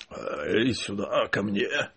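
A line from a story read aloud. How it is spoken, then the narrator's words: Groaning, muttering. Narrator (Russian): застонал ... бормоча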